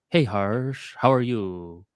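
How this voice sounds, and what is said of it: Stretched-out drawn words. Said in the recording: “I would stretch out my words a lot in English”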